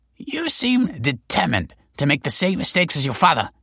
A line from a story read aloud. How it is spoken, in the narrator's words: she snapped